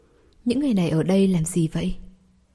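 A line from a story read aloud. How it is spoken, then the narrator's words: Quiet, a little frightened. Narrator (Vietnamese): Đường Hình có hơi sợ hãi, nhỏ giọng nói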